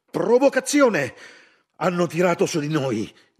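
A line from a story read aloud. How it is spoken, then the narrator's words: Shouting. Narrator (Italian): gridò uno di loro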